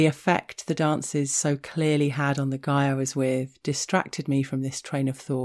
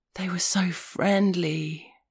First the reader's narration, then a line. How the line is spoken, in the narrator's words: he said, in a gasp of awestruck wonder, like a man sitting at the edge of the Grand Canyon at sunset